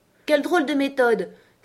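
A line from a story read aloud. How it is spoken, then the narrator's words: Exclaimed. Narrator (French): s'exclama Alice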